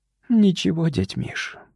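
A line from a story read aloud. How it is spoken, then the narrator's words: After a shaky sigh. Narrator (Russian): судорожно вздохнув, сказала Лена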